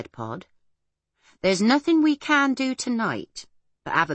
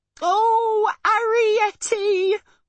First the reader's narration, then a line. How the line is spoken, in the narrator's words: wailed Homily